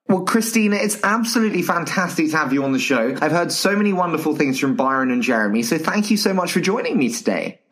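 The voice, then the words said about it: English accent. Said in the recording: “this dulcet English accent”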